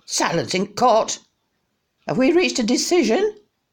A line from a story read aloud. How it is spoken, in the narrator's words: The crow called out